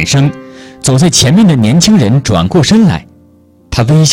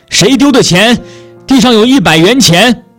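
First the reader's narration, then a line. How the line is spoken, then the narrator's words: Old woman shouting loudly. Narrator (Chinese): 一位骑三轮车的老奶奶在大声地叫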